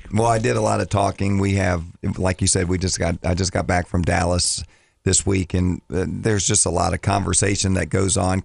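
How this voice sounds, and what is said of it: Scratchy voice. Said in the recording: “My voice is a little scratchy today.”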